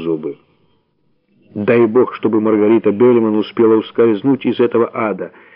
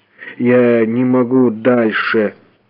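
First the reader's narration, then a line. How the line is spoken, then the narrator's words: Moaning. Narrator (Russian): простонал он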